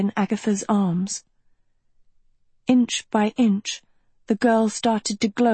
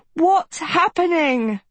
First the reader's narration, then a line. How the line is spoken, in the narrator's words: Agatha cried